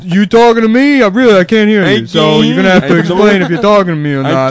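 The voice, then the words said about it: Deaf Robert De Niro impression. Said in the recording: “Do deaf Robert De Niro ... Deaf Robert De Niro ... Fusing two ham-fisted acts”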